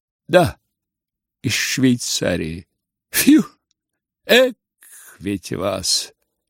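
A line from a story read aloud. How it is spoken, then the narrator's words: Whistle, then loud laughter. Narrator (Russian): Черноволосый присвистнул и захохотал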